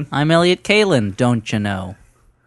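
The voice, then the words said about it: Put-on Fargo-style Minnesota accent. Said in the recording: “my Fargo impression ... Fargo? ... like the movie”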